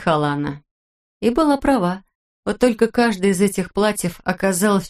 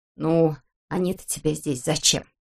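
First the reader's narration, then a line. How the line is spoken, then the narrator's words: Grumbling. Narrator (Russian): ворчала Герта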